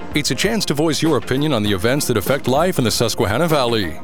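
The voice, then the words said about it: Deep male announcer voice. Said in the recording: “deep voice”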